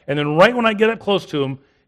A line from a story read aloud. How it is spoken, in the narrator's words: he yells